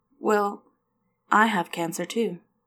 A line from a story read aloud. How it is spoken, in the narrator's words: Leo said softly